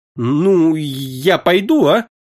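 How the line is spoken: Timid. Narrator (Russian): Робко проговорила она

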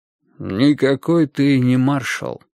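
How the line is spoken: Calm. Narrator (Russian): спокойно произнес Ким Ир Сен

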